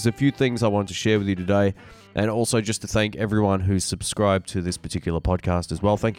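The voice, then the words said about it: Nasal, congested voice. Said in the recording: “I'm still a little bit under the weather, so if I sound a little nasally ... I can still tell I'm a little blocked up in the nose”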